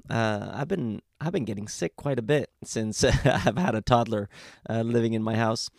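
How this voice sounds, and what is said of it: Rough, hoarse voice. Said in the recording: “my voice is a little rough. Uh, I managed to catch cold”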